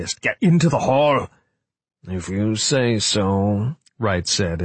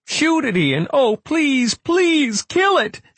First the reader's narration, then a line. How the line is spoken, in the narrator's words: she screamed